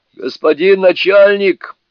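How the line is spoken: Spirit shouting. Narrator (Russian): крикнул тут один из духов

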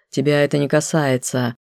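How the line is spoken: Curt, icy. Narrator (Russian): отрезал ледяным тоном

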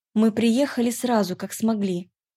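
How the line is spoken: Forced calm. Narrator (Russian): Стараясь говорить спокойно, ответила я

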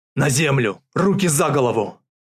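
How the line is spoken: Bark. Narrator (Russian): Рявкнул он

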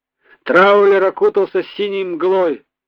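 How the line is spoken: Laughing. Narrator (Russian): Засмеялся

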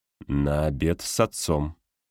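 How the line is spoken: Slow reply. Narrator (Russian): медленно отвечаю я

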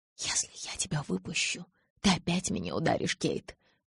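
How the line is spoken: Whispered. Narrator (Russian): прошептал он

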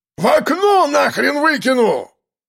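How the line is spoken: Yelling storekeeper. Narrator (Russian): Орал кладовщик

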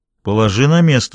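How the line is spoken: Calm. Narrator (Russian): спокойно произнес Даффи

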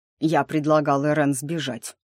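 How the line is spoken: With a snort. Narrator (Russian): Стефан хмыкнул

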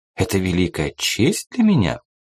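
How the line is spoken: Flirtatious giggle. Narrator (Russian): кокетливо хихикнула О'Хара

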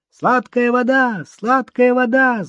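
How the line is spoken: Boy yelling. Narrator (Russian): заорал мальчишка

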